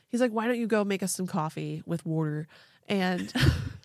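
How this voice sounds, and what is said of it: Put-on Pennsylvania accent. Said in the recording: “I don't know how to do this accent. ... a Pennsylvanian accent”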